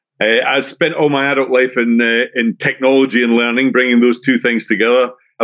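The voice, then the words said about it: Scottish accent. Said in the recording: “if you have an ear for accents, I'm originally from Scotland”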